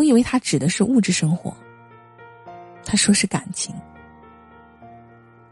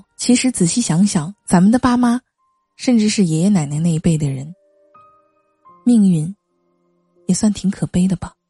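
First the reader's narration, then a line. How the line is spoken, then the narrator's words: Wistful sigh. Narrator (Chinese): 妹妹感叹道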